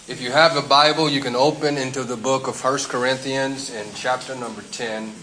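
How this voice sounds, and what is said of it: Strong non-native English accent. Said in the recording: “Yes, I have a strange accent.”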